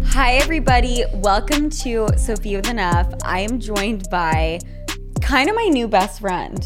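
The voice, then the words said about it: Polished presenter voice with different inflection. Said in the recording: “your presentation voice ... you had a much different inflection ... it was impressive”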